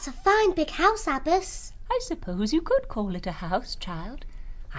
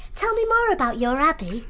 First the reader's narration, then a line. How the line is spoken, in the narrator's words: Columbine said excitedly